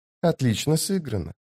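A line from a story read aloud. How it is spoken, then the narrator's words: Whisper. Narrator (Russian): прошептал он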